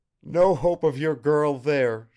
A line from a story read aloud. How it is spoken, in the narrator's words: chuckled